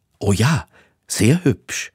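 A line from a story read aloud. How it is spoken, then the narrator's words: Stammering. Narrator (German): stammelte Hector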